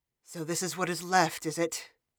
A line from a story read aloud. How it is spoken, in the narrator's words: La Heron muttered with resignation